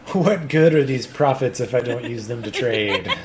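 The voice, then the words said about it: Evil character voice. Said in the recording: “I know that evil, the evil voice.”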